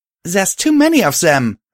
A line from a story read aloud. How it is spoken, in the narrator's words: I called out to Steeljack